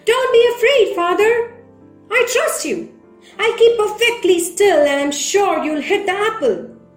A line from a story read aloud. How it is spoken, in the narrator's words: this young man shouted from the post where he was tied up